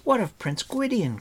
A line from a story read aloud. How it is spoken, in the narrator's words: cried Terran